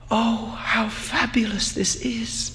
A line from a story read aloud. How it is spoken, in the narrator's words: Aminta murmured